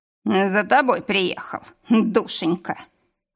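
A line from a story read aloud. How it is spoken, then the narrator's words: Wry snort. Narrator (Russian): хмыкнул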